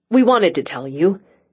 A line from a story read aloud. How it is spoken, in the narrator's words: Angie blurted out